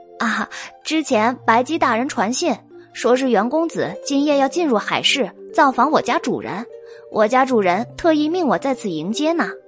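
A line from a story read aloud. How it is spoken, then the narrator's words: Child speaking cheerfully. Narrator (Chinese): 小童笑着说道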